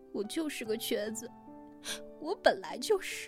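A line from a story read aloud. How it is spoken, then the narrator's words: Tearful. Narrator (Chinese): 小满哭了满脸泪 说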